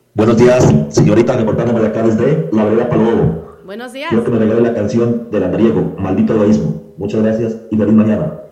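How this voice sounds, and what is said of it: Upbeat radio-announcer style voice. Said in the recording (Spanish): “qué chévere que se le escucha la voz a este chico. Está con ese ánimo, con ese positivismo ... Parece que fuera colega como voz de locutor.”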